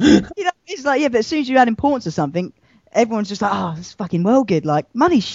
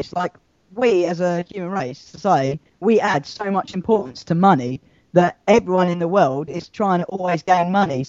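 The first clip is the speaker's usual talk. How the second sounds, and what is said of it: Robot-like voice. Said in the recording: “Massive robot voice”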